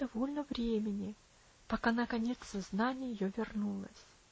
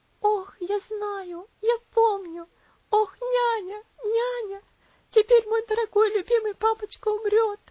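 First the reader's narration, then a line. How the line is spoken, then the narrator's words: Sobbing little girl. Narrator (Russian): всхлипнула бедная девочка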